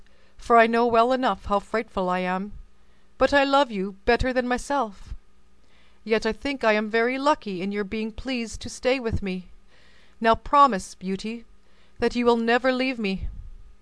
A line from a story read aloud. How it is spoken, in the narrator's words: sighed the beast